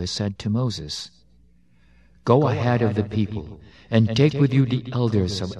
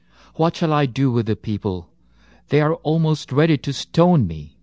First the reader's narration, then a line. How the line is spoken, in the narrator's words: Moses cried to Yahweh